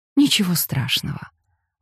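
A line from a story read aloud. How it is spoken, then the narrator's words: Gentle. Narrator (Russian): ласково сказала она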